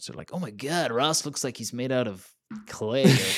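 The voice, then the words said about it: Put-on American accent. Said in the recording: “That was my American accent, by the way.”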